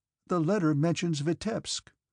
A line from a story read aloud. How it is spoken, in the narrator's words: Dessalles began timidly